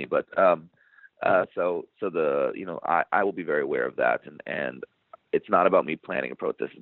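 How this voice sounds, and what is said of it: Hoarse, fading voice. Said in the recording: “I'm losing my voice, so pardon me.”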